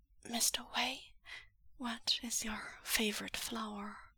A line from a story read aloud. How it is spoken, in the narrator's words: Yuan says, in a whisper that claws its way up out of his throat like reaching branches